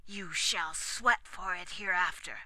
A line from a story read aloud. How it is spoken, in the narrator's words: added through his teeth